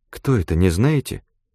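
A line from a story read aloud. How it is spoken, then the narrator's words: Quiet question. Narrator (Russian): тихонько спросила официантка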